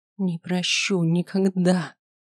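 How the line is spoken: Through teeth, holding back tears. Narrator (Russian): процедила, глотая слезы

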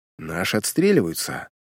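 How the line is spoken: Low voice. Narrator (Russian): вполголоса заметил агент

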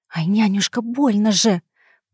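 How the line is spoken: Grumbling hiss. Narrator (Russian): проворчала я, зашипев, как растерженный уж

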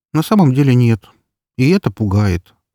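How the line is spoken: Sighing. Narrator (Russian): вздохнула Эльсейка

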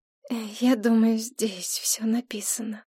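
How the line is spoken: Awkward mumble. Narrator (Russian): неловко пробормотала Мэй Цзюнь

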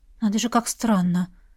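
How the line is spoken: Mutter. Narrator (Russian): пробормотала она

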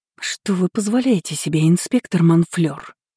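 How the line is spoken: Hissing through teeth. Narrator (Russian): Зашипела я сквозь зубы

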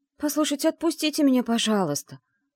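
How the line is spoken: Pleading. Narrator (Russian): взмолилась

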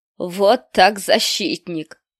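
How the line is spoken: Coarse laughing sergeant. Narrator (Russian): грубо расхохотался сержант

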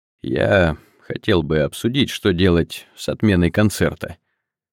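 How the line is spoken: Suddenly hoarse. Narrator (Russian): сказал Андрей неожиданно хрипло

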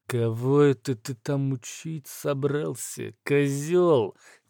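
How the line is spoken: Through clenched teeth. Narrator (Russian): процедил третий голос

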